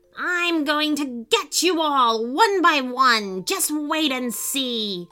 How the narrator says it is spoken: The evil warlock magician screaming

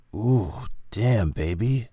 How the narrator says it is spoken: Cade moaned

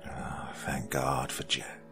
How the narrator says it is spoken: muttered aloud as he passed out

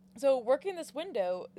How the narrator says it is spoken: Zack yelled out to a couple women

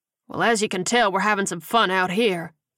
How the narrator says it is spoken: Hammond said dryly

